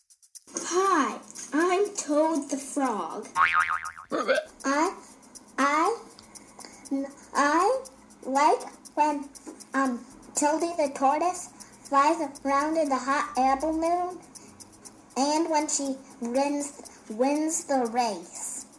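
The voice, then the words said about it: Child doing a froggy character voice. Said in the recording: “Great job being a frog ... That froggy impression”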